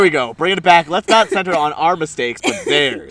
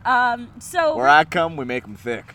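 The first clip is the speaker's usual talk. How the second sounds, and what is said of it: Put-on southern US accent. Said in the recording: “That was kind of southern, though. ... Yeah, that was really southern.”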